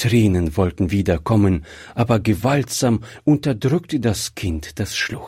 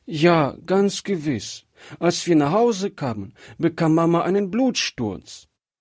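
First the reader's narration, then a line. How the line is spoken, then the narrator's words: Child sobbing bitterly. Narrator (German): erzählte das jetzt doch bitterlich schluchzende Kind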